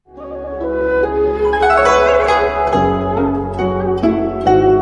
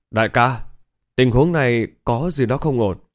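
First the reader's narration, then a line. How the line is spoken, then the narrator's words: Soldier speaking quietly. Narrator (Vietnamese): Kỵ sĩ cấm quân bên trái nhỏ giọng nói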